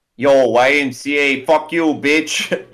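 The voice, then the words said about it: Put-on New York accent. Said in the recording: “if they sang YMCA with a New York accent?”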